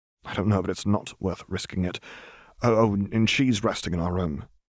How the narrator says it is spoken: added quietly, so as not to be overheard

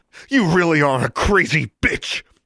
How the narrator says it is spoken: Alexandra snarled

